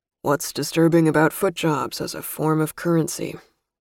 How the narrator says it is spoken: drawled in a husky, bored voice

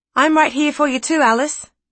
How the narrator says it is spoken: piped up Jasper

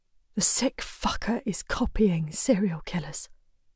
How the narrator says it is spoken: she whispers

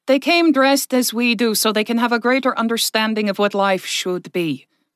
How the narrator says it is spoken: Verka said a little loudly

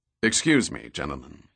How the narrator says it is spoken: he said in a deep voice

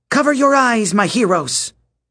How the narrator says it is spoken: She shouted

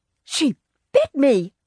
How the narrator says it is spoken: Grandma cried

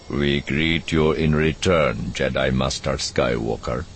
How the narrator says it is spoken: he said, his voice flat and emotionless

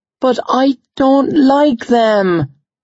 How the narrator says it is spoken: she whined

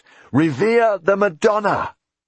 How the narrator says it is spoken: Jack started to shout

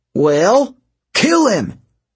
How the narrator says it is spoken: yelled

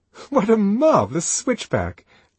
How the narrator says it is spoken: Lenina laughed delightedly

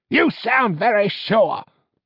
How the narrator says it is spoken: snapped Pastor

